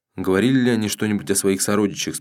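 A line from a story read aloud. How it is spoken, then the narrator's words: Plain. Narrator (Russian): спросил Унзура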